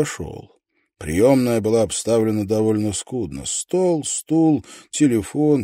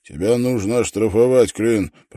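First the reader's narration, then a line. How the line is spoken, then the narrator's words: Grumble. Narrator (Russian): проворчал он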